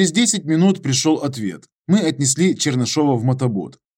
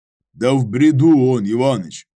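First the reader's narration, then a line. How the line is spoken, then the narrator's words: Deep bass voice. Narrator (Russian): пробасил Данилов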